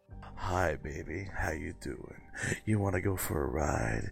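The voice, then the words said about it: Low, breathy seductive voice. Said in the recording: “sexy voice ... I was going to say you sounded like deep throat”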